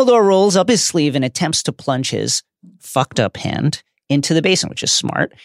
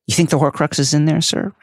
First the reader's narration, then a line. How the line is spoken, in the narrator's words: Harry asks